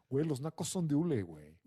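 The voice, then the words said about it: Posh Mexico City fresa accent. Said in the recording (Spanish): “De acento fresco”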